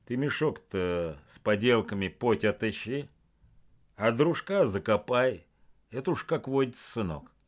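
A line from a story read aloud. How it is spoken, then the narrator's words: Dull mutter. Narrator (Russian): Игнату глухо буркнул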